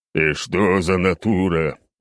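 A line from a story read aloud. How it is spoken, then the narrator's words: Displeased grumbling. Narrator (Russian): продолжил недовольно бурчать Черномор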